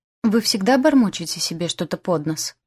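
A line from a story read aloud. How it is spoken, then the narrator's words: Sudden sharp question. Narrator (Russian): неожиданно резко поинтересовался мой провожатый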